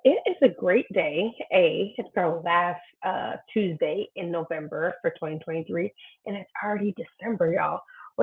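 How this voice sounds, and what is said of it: Slightly harsh, raspy voice. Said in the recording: “I was recovering from vacation and slash a little sickness. So sorry if my voice is a little harsh right now.”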